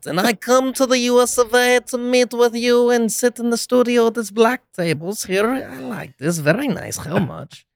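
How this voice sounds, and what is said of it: Borat character impression. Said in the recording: “I have a really good Borat impression.”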